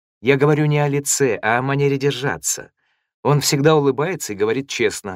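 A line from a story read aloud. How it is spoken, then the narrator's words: Plain. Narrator (Russian): сказала Сатоми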